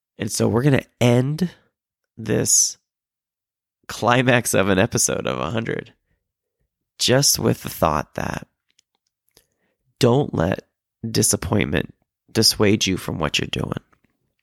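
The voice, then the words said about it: Weak, tired, sick-sounding voice. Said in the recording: “talking into the microphone with my COVID. You can probably tell with my voice is not very much there. I am tired and I'm exhausted.”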